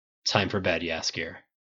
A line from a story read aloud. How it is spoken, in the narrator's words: Geralt mutters